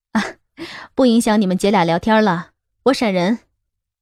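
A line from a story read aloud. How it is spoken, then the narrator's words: Laughing. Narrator (Chinese): 徐云笑道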